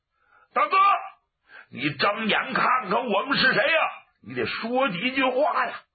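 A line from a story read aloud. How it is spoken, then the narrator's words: Shouting. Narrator (Chinese): 程铁牛、程万牛也喊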